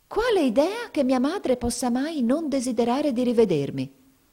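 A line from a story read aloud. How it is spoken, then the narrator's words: Flushed, indignant exclamation. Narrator (Italian): esclamò Mamie, diventando di porpora in viso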